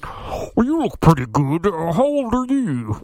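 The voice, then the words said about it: Creepy, artificially deep disguised voice. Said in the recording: “it sounds like this... it's like really this deep voice, which makes it even creepier”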